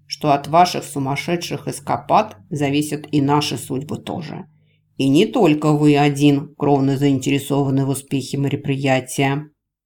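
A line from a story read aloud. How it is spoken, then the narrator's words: Raised voice, growling. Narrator (Russian): бывший маг повысил голос до ответного рычания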